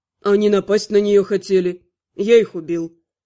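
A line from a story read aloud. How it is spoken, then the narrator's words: Calm explanation. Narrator (Russian): спокойно пояснил Алиорн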